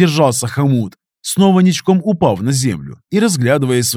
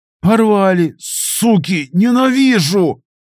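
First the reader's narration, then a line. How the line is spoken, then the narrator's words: Hissing through teeth. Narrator (Russian): прошипел он сквозь зубы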